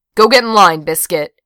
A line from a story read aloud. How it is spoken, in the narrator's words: she barked